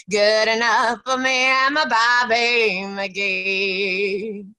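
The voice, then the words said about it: Sings imitating another person's voice. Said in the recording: “It didn't sound exactly like Janis, but I feel like you captured her spirit... you sing very well”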